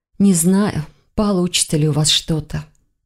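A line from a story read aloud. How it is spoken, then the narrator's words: Sigh. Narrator (Russian): вздохнула она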